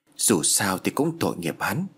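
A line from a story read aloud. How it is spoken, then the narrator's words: Muttering. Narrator (Vietnamese): Anh lẩm bẩm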